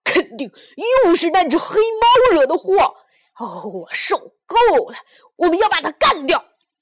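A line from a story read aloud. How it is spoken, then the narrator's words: Child shouting. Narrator (Chinese): 小胖墩喊道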